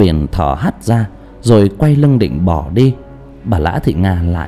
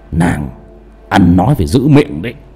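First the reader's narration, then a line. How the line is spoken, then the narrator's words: Harsh stern voice. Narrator (Vietnamese): Cao Biển chỉ gằn giọng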